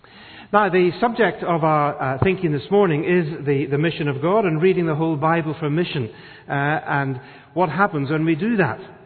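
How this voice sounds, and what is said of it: Northern Irish accent. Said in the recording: “the accent is, it's from Northern Ireland ... I was born and brought up in Belfast, Northern Ireland”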